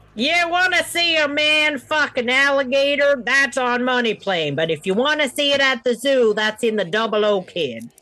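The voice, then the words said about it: Sudden put-on accent. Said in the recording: “Don't ask me where that accent came from.”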